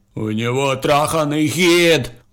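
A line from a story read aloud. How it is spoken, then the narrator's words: Howling with rage. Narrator (Russian): взвыл от ярости Дерек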